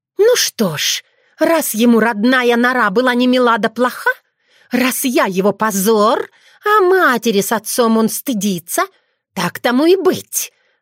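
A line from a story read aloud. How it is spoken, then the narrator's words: Angry snarl. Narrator (Russian): зло оскалилась Кицуне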